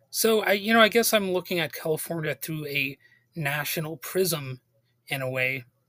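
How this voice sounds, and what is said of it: Hoarse, fading voice. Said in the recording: “I'm losing my voice a little bit”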